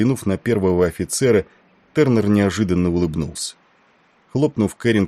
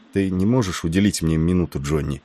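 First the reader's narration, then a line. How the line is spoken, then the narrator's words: Boy speaking in undertone. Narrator (Russian): вполголоса проговорил капковый мальчик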